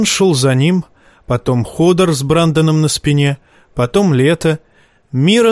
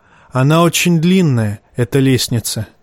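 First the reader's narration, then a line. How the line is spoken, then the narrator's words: Sigh. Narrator (Russian): вздохнул он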